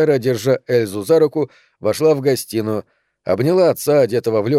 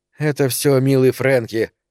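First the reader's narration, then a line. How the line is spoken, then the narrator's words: Irritated reply. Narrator (Russian): раздраженно ответила Сара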